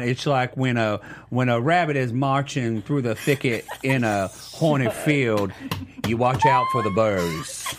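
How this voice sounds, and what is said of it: Imitates another person's voice. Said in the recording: “your wonderful impersonation. So can you give us your best on us”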